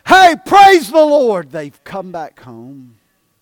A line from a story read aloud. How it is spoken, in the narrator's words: we ought to rejoice and shout and say